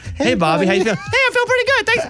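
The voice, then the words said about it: Squeaky Mickey Mouse-like kid voice. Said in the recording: “doing a kid voice ... It's going to be Mickey Mouse coming out of my phone”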